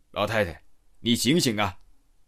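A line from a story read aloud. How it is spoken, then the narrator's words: Raised voice, shouting. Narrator (Chinese): 我提高音量喊道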